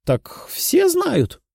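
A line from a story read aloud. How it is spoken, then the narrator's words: Giggling woman. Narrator (Russian): хихикнула женщина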